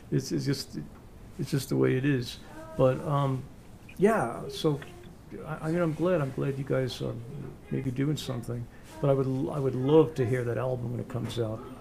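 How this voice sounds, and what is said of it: New York accent. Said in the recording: “I'm stuck with my New York accent”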